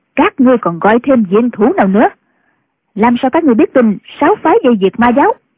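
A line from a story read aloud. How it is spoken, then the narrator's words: Barked question. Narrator (Vietnamese): Tĩnh Quyền quát hỏi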